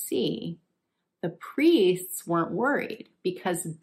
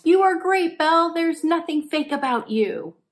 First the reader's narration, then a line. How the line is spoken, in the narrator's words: the emperor yelled